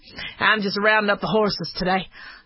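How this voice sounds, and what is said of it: Texan cowboy accent. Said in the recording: “the cowboy accent. You come from Texas, and you're a cowboy.”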